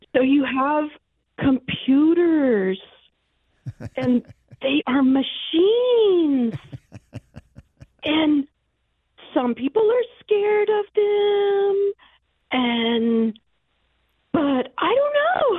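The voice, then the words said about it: Imitates another person's voice. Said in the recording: “my imitation of Kamala Harris talking about AI”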